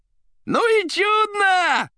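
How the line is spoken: Yelling. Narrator (Russian): орал Коровьев

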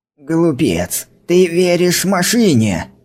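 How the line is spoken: Growling. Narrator (Russian): зарычал Брайан

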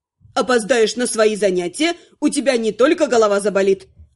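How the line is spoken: Snapping retort. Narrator (Russian): Огрызнулась черноволосая Инара

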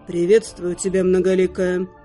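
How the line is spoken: Calm reply. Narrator (Russian): Спокойно откликнулся

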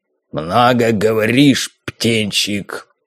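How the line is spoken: Growled. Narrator (Russian): рыкнул Харрис

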